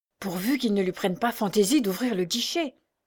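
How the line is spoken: Whispering in ear. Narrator (French): murmura Picard à l'oreille de son maître

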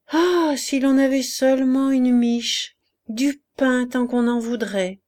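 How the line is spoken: Hungry hen's sigh. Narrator (French): soupira la poule qui souffrait de la faim plus que les autres, torturée par son gros appétit

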